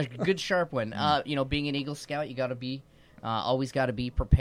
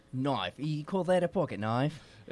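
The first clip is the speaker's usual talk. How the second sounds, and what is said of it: Put-on Australian accent. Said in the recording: “why are we speaking in an Australian accent all of a sudden?”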